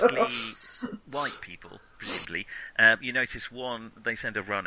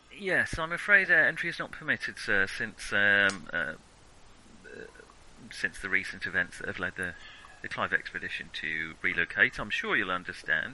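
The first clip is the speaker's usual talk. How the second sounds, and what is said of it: Put-on English accent. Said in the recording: “a white guy with an English accent”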